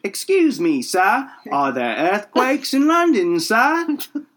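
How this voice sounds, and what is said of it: Put-on British accent. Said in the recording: “my accent suddenly became British”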